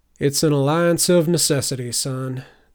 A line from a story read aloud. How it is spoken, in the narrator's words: the bandit sighed